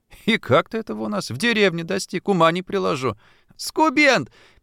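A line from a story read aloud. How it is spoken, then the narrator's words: Muffled squeak, helpless laughter. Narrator (Russian): пискнула из-под одеяла, изнемогавшая от хохота Шурка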